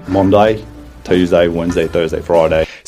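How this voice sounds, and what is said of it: Non-native attempt at broad Australian accent. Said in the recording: “they'll have a broader accent. I think that's what he's going for here ... he doesn't have a natural Australian accent”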